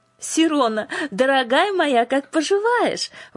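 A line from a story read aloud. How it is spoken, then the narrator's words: Warm exclamation. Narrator (Russian): воскликнула она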